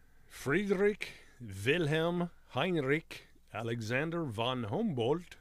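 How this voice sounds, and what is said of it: Remarkable put-on German accent. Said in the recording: “That accent was pretty remarkable.”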